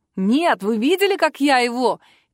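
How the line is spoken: Excited shout. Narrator (Russian): кричал Тим

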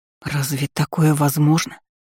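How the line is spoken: Horrified hoarse wheeze. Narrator (Russian): Просипела, в который раз ужаснувшись немыслимому коварству и вероломству темного близнеца

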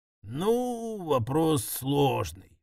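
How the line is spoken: Drawling. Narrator (Russian): протянул Мордекай

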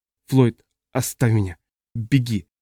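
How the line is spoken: Stammering speech. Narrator (Russian): произнесла Ажье, запинаясь

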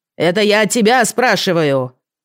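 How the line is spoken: Loud man. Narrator (Russian): громко сказал муж

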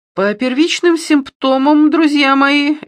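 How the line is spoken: Cheerful announcement. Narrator (Russian): весело объявлял он

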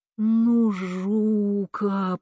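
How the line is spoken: Groaning. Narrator (Russian): простонал он, как всегда

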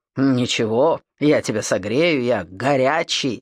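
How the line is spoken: Chuckling. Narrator (Russian): хохотнул он

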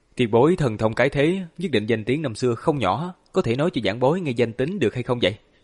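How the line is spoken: Smiling question. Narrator (Vietnamese): Hàn Lập mỉm cười hỏi ngược lại

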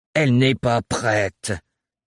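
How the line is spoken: Heavy voice. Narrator (French): souligna Thorne d'une voix lourde

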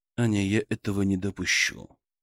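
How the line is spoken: Gentle but firm. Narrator (Russian): мягко, но твердо прервал ее Мышкин

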